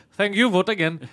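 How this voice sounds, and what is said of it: Put-on Indian accent. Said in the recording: “to do the accent ... you're trying to get the Indian vote and you're like”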